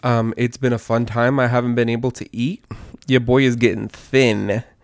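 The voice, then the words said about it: Sick-sounding voice. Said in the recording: “as you can all probably hear from my voices, I've been sick”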